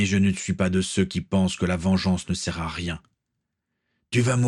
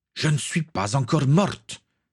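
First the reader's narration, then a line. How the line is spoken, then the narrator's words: Exclaimed. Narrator (French): s'écria-t-elle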